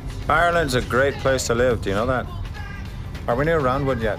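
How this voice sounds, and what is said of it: Poor put-on Irish accent. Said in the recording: “Irish accent is about as terrible as”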